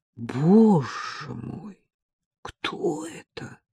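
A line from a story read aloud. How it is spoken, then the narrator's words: Weak voice. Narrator (Russian): Колобок вымолвил слабым голосом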